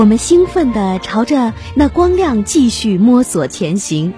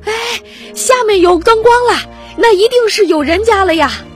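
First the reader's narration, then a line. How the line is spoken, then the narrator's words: Excited shout. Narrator (Chinese): 大田兴奋地喊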